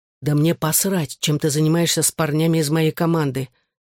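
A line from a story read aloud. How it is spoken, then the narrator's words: Calm. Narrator (Russian): спокойно ответил я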